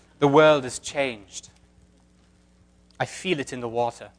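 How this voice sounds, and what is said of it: Put-on British accent. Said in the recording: “Should I do my British accent?”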